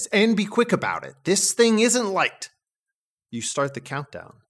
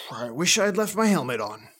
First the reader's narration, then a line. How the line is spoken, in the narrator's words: she mutters